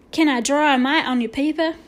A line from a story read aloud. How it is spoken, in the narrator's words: asked